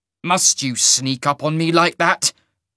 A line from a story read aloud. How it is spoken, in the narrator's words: the half-mage snarled